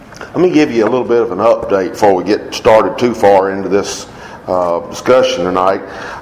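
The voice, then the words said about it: Voice slightly rough from a cold. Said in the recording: “I am battling a little bit of a cold this week, and so y'all forgive me if my voice is not the best”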